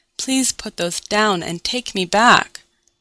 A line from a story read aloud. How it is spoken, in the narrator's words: pleaded